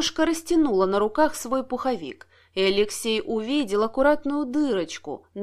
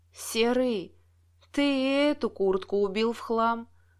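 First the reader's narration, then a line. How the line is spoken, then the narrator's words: Sighing. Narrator (Russian): вздохнула Лариса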